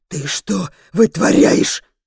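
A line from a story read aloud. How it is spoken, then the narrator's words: Angry hiss. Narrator (Russian): Зло шипит Сафр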